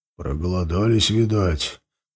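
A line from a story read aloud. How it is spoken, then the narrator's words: Old man's grumble. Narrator (Russian): проворчал самый пожилой из ассасинов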